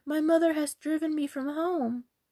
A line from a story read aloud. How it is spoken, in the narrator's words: she cried